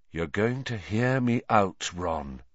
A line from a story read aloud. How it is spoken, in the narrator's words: he said quietly